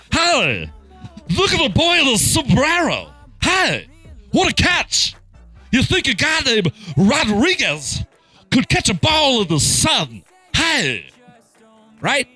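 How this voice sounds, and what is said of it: Imitates another person's voice. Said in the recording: “That was really good impression.”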